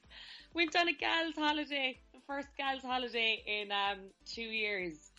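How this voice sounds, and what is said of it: Hoarse, slightly broken voice. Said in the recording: “I'm a bit hoarse... You sound a bit broken.”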